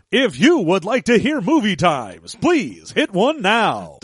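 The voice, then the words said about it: Movie phone announcer voice. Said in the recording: “You and your damn movie phone voice.”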